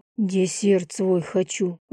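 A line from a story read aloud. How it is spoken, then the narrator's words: Breathy exhale. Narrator (Russian): выдохнул я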